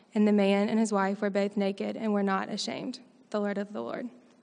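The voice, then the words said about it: Mild Mississippi Southern accent. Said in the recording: “she has a little bit of an accent, and that's not a Texas accent. She's from Mississippi”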